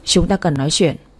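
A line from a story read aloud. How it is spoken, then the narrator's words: Cold. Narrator (Vietnamese): Lâm lạnh lùng, anh nói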